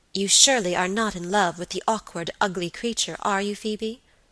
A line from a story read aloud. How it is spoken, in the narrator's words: asked sharply